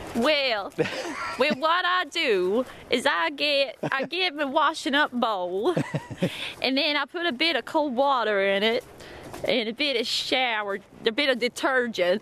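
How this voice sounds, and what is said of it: Put-on Southern US accent. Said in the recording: “put on a Southern USA... accent.”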